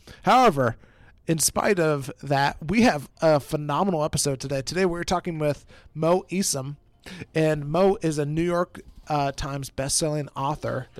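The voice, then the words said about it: Sick-sounding voice. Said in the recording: “I'm on the back end of recovering from a little bit of sickness. ... You probably hear it in my voice. ... He's been a sick dude.”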